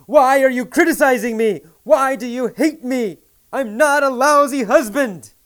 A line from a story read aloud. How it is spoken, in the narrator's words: He yelled